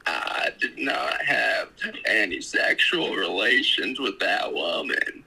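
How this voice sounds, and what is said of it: Imitates a Southern Arkansas politician's voice. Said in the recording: “Wow, you sound like him. ... You sound like that. ... you sound like that old Southern Arkansasian ... impersonations”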